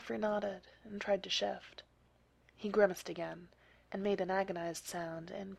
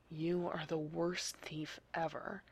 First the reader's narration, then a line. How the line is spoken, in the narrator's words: he muttered